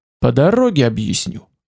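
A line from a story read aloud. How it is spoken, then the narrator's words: Plain. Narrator (Russian): ответил я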